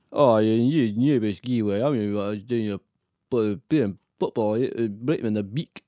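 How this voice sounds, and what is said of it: Scottish accent, Alan Hansen impression. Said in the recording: “Oh, no, Scottish, wasn't he? ... You're very Alan Hansen there.”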